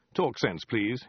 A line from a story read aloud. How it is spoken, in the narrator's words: he said sharply